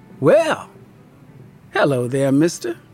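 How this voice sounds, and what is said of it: Faint Southern twang. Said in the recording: “There is a faint hint of a twang in her voice, the remnants of a southern accent”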